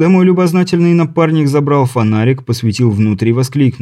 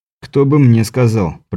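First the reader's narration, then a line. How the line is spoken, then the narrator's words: Grumbled reply. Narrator (Russian): пробурчал в ответ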